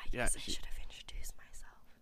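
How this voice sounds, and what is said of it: Whispering. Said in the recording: “she's whispering”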